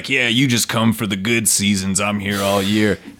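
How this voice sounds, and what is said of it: Gruff imitation of another man. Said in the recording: “he gets a little gruff ... this is my Tim impression”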